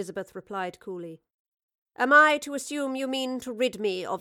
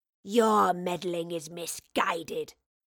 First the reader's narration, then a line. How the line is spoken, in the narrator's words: snarled the wraith